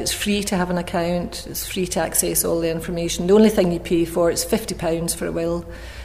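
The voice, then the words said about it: Scottish accent. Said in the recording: “I have a Scottish accent”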